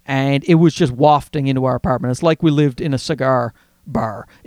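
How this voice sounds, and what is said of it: Newfoundland accent. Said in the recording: “you hear my Newfie accent there?”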